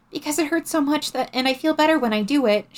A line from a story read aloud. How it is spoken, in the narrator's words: she said desperately